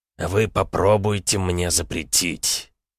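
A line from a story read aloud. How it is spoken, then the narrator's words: Quiet, measured, with pauses. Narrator (Russian): тихо, раздельно, с паузами произнес император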